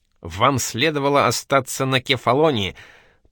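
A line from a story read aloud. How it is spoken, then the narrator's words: Grumbling. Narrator (Russian): продолжал ворчать Джулиус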